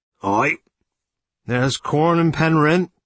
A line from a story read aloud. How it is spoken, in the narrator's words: said Jack Tripp hoarsely